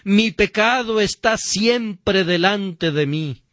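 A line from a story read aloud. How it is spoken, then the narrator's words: Shouted. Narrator (Spanish): grita con David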